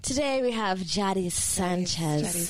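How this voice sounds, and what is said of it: Put-on sexy, cute voice. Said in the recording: “Do you like my sexy voice ... you guys made it sound really cute. Really sexy.”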